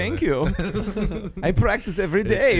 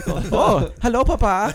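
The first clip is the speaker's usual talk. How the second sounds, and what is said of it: Put-on excited German accent. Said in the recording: “you have a pretty good German accent ... you got to sound very excited”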